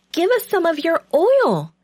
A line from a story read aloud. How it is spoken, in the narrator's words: they begged